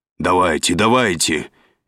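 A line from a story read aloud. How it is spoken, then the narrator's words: Impatient shout. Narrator (Russian): нетерпеливо прикрикнул Дональд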